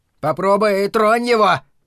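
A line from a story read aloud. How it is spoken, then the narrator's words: Shouting friend. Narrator (Russian): крикнул кто-то из его друзей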